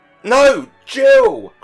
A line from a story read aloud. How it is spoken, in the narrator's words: cried both the parents